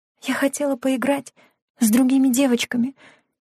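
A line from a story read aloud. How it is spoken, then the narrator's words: Whisper. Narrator (Russian): прошептала Лена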